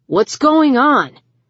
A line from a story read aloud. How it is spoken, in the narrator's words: Brian shouted over the music